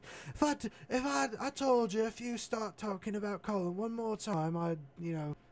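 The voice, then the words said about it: Attempted Irish accent, not convincing. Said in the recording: “that's not an Irish accent. It's some other accent”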